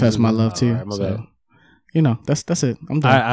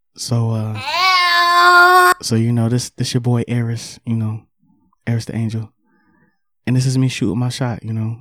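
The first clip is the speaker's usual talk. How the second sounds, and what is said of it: Put-on sexy seductive voice. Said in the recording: “let me put my sexy voice on.”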